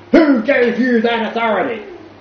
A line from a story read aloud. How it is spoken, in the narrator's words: The chief officer almost attacked him with rage for his presumptive innocence, or indeed for his insanity, and he bellowed out